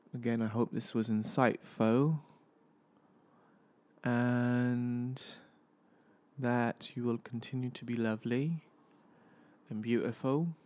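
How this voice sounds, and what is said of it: British accent. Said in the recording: “as bad a British accent as I do”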